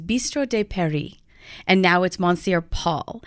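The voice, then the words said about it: Botched put-on French accent. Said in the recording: “excuse my botched up French accent here”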